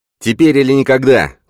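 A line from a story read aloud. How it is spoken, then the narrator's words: Shout. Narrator (Russian): крикнул он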